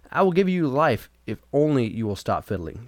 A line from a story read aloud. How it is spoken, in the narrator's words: the judge cried, quite out of breath